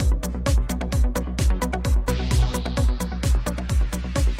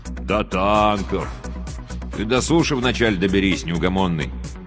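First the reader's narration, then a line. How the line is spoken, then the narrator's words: Gloomy grumble. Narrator (Russian): мрачно проворчал радист-пулеметчик Курсилов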